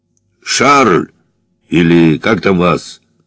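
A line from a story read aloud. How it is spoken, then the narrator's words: Booming bass yell. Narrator (Russian): зычным генеральским басом заорал Соболев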